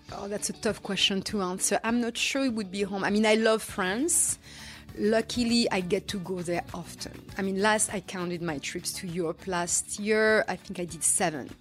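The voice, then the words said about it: Noticeable foreign accent. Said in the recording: “I detect an accent”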